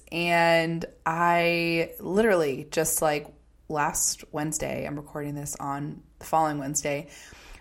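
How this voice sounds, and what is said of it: Slightly hoarse voice. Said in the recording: “hear it in my voice, but I'm a little bit hoarse because I was sick for about a week”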